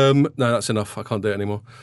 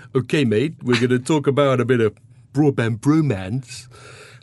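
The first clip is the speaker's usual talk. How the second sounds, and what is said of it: Put-on accent as a cliché DJ. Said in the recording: “smashy and nicey ... a couple of comedy characters who are like sort of cliche DJs ... I'm going to try and do a bit of an accent”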